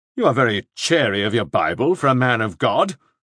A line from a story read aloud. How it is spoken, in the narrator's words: Shepherd snapped